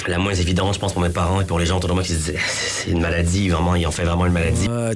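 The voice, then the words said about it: Quebecer speaking with a French accent. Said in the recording (French): “Le petit accent français chez les Québécois? ... Des Québécois qui parlent avec l'accent français.”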